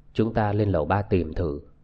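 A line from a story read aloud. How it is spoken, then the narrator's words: Quiet voice. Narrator (Vietnamese): A Viên nhỏ giọng bảo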